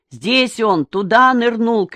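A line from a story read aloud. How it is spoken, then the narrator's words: Shouted. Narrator (Russian): крикнул Боря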